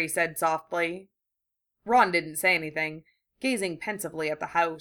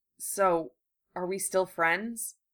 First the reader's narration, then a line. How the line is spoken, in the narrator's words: Harry asked hesitantly